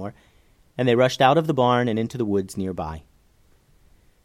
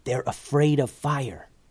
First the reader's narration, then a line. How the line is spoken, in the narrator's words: whispered Eleanor to Veronica